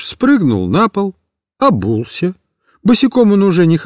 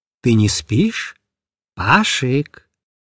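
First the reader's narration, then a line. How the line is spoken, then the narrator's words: Quiet question. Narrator (Russian): негромко спросил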